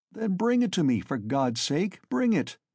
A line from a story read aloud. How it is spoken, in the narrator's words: cried Raskolnikov, greatly excited